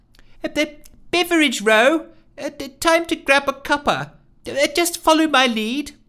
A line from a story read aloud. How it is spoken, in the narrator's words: Nancy called out from just ahead